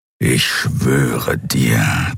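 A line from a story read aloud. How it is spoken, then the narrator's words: Warrior growling. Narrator (German): knurrte das Krieger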